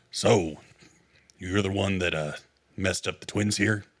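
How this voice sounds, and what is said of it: Gruff, grizzled character voice. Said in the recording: “let me do that voice again because that's too close to Hutch... Oh, you want to have a gruff off? Let's have a gruff off.”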